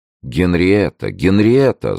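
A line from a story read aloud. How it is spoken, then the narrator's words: Vexed exclamation. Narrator (Russian): с досадой воскликнул король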